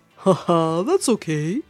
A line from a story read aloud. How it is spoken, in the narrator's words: laughed Grandpasaurus